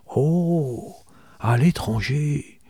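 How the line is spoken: Murmured. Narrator (French): murmura tante Julia

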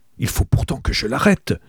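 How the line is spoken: Murmur. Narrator (French): murmurai-je

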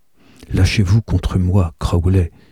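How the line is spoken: Whispering. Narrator (French): lui chuchota-t-elle

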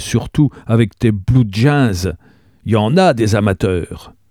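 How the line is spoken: Terrified exclamation. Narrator (French): s'exclama Gabriel épouvanté

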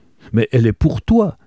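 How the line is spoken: Exclaiming. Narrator (French): s'écria Grace

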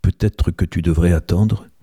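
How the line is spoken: Murmured. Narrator (French): murmura-t-elle

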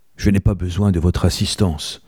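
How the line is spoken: Curt, dry. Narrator (French): dit-elle sèchement

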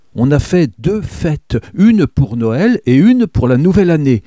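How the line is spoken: Exclaiming woman. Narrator (French): s'exclama-t-elle

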